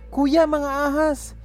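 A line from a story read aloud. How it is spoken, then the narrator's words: Shouted. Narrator (Tagalog): sigaw ni Joe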